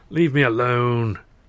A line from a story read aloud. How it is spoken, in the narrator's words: coupled with a mumbled